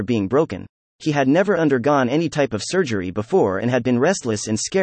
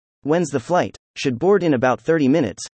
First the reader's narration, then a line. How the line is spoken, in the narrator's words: replied